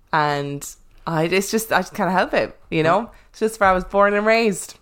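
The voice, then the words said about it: Noticeable regional accent. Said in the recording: “I adore ... accent ... many people who comment on my accent ... I just say things differently”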